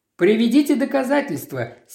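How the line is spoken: Angry insistence. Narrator (Russian): сердито настаивал полицейский

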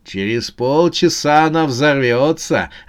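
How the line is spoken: Gleeful announcement. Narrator (Russian): радостно сообщил шпион

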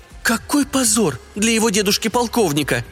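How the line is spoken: Exclamation. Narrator (Russian): воскликнула сеньора Адели

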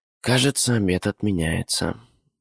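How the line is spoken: Sighed. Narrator (Russian): вздохнула Вика

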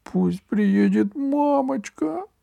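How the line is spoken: Squeaky. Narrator (Russian): пропищал Франц

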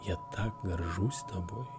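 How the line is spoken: Whisper. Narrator (Russian): шепнул он

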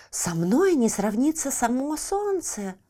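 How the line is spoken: Exclaimed. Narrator (Russian): воскликнул желтый лютик

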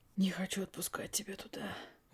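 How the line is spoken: Whispered on an exhale. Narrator (Russian): выдохнув, прошептал он

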